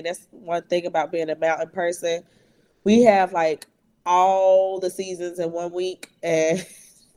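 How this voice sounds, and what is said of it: Voice affected by allergies. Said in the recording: “apologize for my voice. Allergies and everything.”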